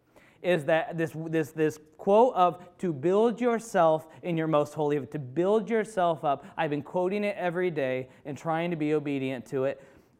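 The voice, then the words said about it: Excited, energetic speaking. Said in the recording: “if I sound excited”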